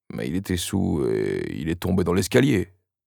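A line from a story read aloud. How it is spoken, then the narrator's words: Grumbling. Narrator (French): grogna Dischle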